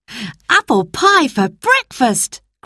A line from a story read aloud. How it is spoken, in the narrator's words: cried Peter